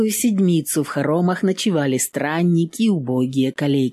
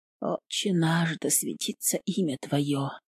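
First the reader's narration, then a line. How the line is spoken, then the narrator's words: Continued whispering. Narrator (Russian): Продолжала шептать старшая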